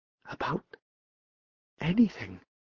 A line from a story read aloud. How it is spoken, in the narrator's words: he whispered